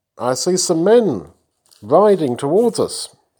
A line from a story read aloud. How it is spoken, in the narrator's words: he called out